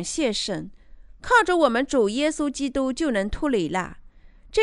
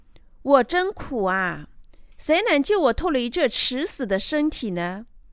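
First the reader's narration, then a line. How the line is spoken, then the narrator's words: Lamenting. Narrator (Chinese): 保罗的悲叹 保罗说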